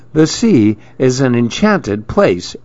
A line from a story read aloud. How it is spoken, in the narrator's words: exclaimed Maribel